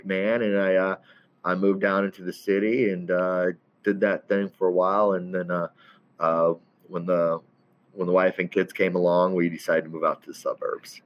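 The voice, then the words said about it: Slight southern drawl. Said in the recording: “I had a goofy accent. I have a little bit of a southern drawl. Really comes out after a few drinks.”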